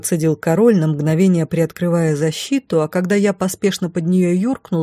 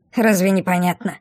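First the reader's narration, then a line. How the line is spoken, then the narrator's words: Scornful snort. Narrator (Russian): фыркнула Мина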